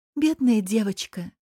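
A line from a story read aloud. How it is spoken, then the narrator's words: Wife sighing. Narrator (Russian): вздохнула жена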